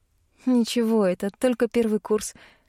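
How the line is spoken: Laughing. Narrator (Russian): рассмеялась я

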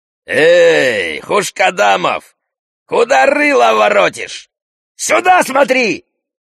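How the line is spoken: Yelling surgeon. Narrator (Russian): вопит хирург

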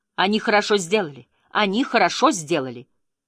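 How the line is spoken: Urge to shout. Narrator (Russian): Мне хотелось крикнуть ей

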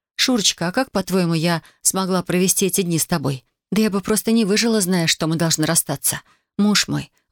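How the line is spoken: Breathy, dark hollow voice. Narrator (Russian): выдохнула она, и на мгновение голос ее показался ему черной пропастью

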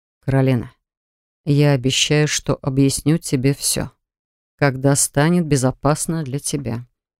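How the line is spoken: Quiet. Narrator (Russian): тихо сказал он

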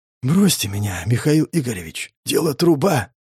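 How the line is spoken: Whisper, coughing blood. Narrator (Russian): Прошептал Покровский и закашлялся кровью

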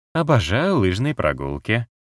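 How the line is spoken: Perfectly interested tone. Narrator (Russian): сказала она идеально заинтересованным тоном

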